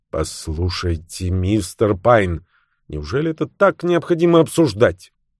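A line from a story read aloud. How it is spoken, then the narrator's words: Angry woman's voice. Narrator (Russian): Эти слова леди Карр произнесла злым голосом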